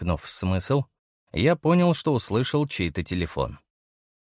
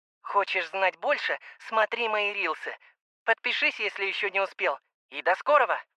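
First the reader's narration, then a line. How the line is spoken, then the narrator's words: Loud, clear girl's voice. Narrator (Russian): Голос Юли звучал громко и отчетливо, будто девушка стояла где-то рядом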